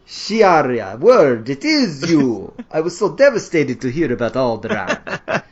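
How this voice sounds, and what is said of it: Bad French-Dracula villain accent. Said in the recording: “something crossed between a bad French accent and something, you know, like a bad Dracula”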